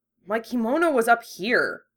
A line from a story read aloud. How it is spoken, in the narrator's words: Yusuke grumbled